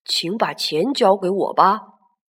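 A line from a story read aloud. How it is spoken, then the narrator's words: Old man, soft. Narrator (Chinese): 老爷爷 轻声说道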